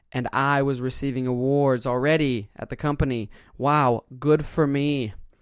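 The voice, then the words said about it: Sarcastic tone. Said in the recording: “hear the sarcasm in my voice”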